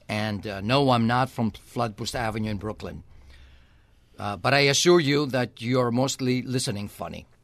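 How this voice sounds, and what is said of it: Slight accent. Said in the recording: “I have a slight accent.”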